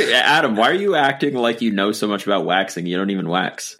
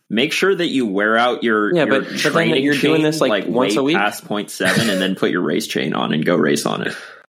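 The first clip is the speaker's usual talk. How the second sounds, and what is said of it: Sarcastic tone. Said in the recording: “That was sarcasm. ... I could tell in your tone of voice”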